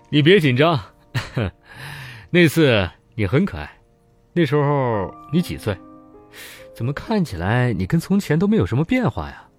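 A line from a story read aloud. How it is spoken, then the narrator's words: Laughing. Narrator (Chinese): 潘凿笑起来说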